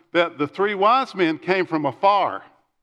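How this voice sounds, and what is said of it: Put-on East Texas accent. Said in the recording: “in his East Texas accent”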